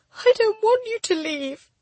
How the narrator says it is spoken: I sobbed

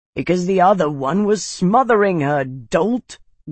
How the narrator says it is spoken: growled Aldo from where he lay

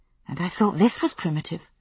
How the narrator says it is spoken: she murmured

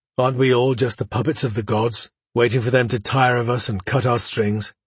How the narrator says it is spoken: He sighed heavily

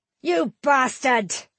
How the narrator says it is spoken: Tanik shouted

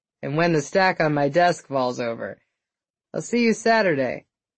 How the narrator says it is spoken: he laughed

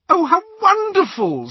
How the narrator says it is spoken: squealed Hermione

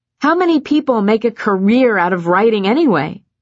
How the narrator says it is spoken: snapped

